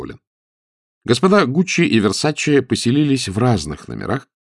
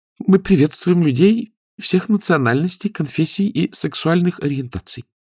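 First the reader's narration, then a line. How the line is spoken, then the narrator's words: Timid. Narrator (Russian): робко сказала администраторша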